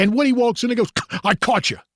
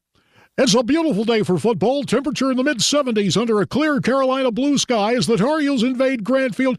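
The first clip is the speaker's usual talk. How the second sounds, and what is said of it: Impression of sportscaster Woody. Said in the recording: “my Woody impersonation”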